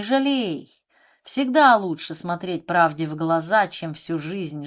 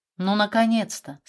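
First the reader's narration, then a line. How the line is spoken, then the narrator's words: Calm. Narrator (Russian): сказал он спокойно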